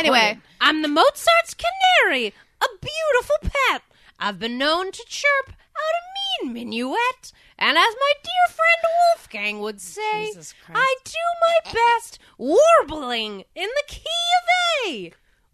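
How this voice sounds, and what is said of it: Strange bird-like character voice. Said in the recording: “A strange voice. ... As much as like a bird voice. ... It's a bird accent.”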